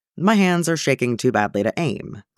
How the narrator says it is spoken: Granta says blandly

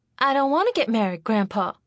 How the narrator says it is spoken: Charity exclaimed

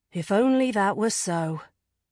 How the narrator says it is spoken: she sighed

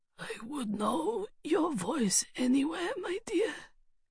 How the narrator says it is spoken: the figure croaked

